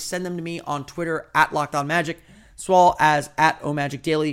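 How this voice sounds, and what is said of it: Voice giving out, strained. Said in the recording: “You can probably tell my voice is giving out.”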